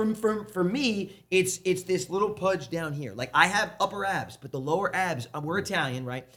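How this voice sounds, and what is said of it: Usual voice. Nothing is said of it.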